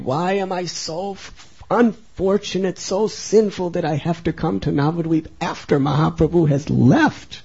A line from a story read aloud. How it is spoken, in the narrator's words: Narottam cried